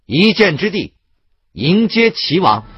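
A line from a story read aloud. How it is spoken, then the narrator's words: Loud command. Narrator (Chinese): 立刻高声命令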